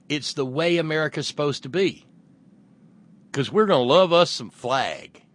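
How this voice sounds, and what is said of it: Exaggerated cornpone rural American accent. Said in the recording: “my cornpone accent”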